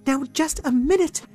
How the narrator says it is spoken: cried Pixie Cato

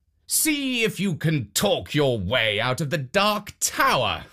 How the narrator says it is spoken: the king called out

